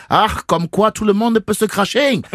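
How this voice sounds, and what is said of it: Put-on German accent. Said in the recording (French): “bosser mon accent allemand.”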